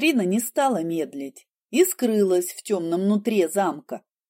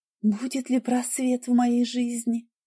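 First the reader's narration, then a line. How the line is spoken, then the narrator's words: Young woman whispering. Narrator (Russian): прошептала девушка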